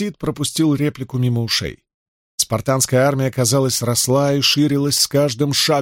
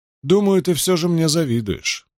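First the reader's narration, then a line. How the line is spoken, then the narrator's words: Sighing. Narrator (Russian): вздохнул Фемистокл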